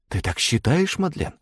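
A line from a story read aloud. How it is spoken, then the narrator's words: Loud whisper. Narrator (Russian): громким шепотом произнесла Агата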